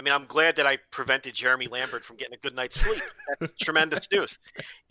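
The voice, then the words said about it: New York accent. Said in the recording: “the guy with the New York accent that's always screaming and yelling”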